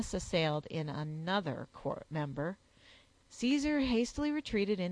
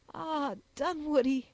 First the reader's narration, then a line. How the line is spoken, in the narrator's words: added the sobbing girl